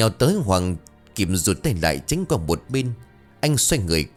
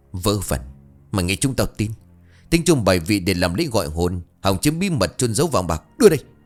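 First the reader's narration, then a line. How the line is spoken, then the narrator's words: Shouting. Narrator (Vietnamese): Bảo quát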